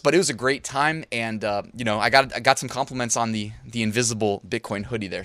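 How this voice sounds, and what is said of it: Slightly hoarse, tired voice. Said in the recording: “I'm a little tired, and dare I say, slightly hungover. ... my voice may be a little bit hoarse.”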